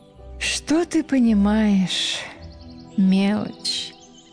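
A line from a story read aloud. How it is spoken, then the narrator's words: Languid sigh. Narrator (Russian): Томно вздохнула девушка лета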